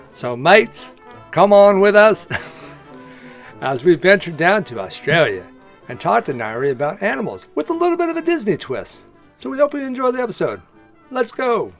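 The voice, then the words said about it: Bad put-on Australian accent. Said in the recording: “That was the worst Australian accent I've ever heard.”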